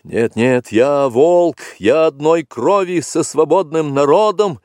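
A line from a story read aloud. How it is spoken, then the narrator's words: Exclaimed. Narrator (Russian): воскликнул Маугли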